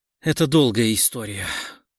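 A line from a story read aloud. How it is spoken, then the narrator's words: Dejected voice. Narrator (Russian): упавшим голосом сказала Ирина Александровна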